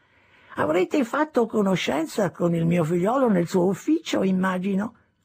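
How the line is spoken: Old man's chirping voice. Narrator (Italian): disse il vecchio con la sua voce pigolante

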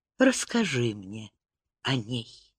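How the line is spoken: Quiet request. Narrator (Russian): тихо попросила она

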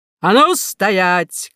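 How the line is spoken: Shouted command. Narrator (Russian): крикнул полковник Рай-Раи

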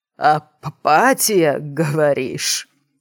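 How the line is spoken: Wheezing, half-strangled. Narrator (Russian): прохрипел полузадушенный Брэдли

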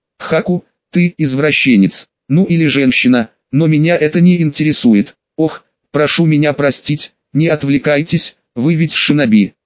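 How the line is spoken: Calm measured reply. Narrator (Russian): спокойно и размеренно ответила

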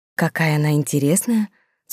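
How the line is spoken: Smiling whisper. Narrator (Russian): с улыбкой шепнула Сесиль

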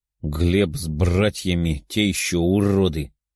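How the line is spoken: Angry growl. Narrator (Russian): со злостью прорычал кентавр

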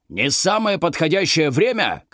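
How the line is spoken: Shouted. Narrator (Russian): крикнул Маврудис

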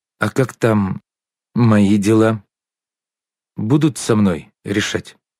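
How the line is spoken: Unusually timid question. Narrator (Russian): Чесноков непривычно робким голосом спросил

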